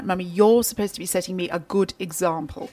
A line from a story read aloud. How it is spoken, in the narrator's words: in her best BBC accent clipped tones, like